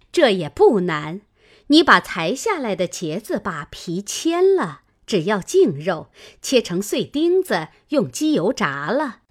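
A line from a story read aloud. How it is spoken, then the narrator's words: Laughing. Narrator (Chinese): 凤姐儿笑道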